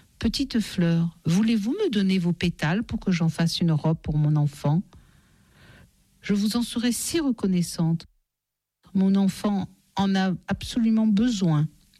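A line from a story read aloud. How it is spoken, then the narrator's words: Tender caressing voice. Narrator (French): elle dit aux fleurs d'une voix caressante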